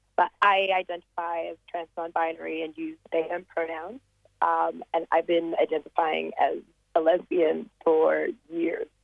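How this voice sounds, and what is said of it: Slight American international accent. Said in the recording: “the little American international accent”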